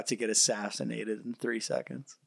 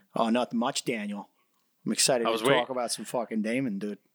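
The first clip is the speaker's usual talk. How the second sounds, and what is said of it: Put-on Boston accent. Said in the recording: “That was ... doing a Boston accent”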